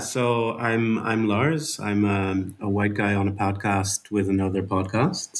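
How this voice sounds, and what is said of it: Dutch accent. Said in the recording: “I'm Dutch, as you can hear from my my accent”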